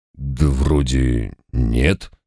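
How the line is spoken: Doubtful drawl. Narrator (Russian): с сомнением протянул домовой

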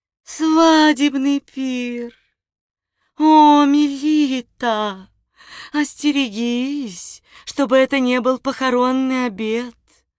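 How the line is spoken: Sobbing. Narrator (Russian): сказав это, Морема зарыдала

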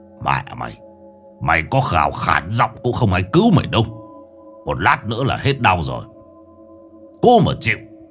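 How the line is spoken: Deep gruff male voice. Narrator (Vietnamese): Bóng người đàn ông đáp bằng giọng ồm ồm

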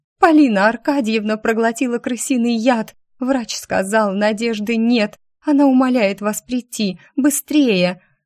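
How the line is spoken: Convincing sobbing. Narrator (Russian): очень натурально рыдала

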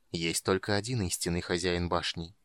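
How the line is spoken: Quiet speech. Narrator (Russian): тихо сказал хранитель

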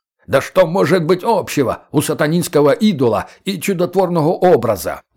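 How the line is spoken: Tremendous roar. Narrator (Russian): Настоятель взревел так, что позавидовал бы мастодонт с крылатских холмов

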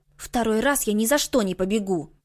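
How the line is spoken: Grumbling. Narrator (Russian): ворчание Юнсей

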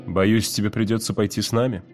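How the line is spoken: Carefree tone. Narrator (Russian): сказал Уит беспечным тоном

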